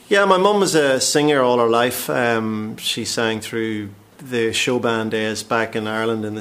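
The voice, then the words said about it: Northern Irish accent. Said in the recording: “There's a definite accent there. ... obviously originally Northern Ireland, County Tyrone”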